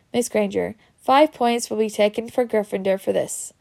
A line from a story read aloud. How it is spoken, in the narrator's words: said Professor McGonagall